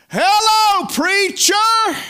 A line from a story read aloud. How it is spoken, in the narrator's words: It's a lousy holler